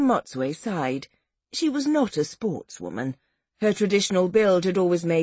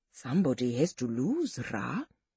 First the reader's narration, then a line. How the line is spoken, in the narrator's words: said quietly